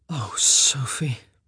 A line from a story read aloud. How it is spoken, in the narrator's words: he groaned, her name the only word he could manage to say